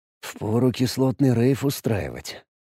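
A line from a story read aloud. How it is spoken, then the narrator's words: Muttered. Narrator (Russian): пробормотал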